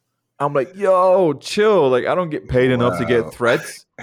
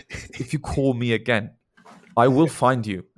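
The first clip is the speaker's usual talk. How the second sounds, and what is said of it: Attempted British accent. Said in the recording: “speaks English mm-hmm. with like a British accent ... I'm trying to do it in a British accent.”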